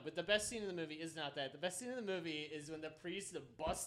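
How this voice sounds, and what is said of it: Usual voice. Nothing is said of it.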